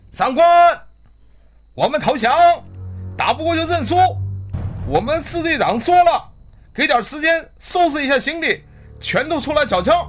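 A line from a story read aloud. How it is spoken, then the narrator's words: Shouting. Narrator (Chinese): 举着白旗的人喊着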